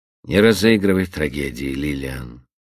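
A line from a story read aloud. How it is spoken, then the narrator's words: Indifferent tone. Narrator (Russian): безразличным тоном произнес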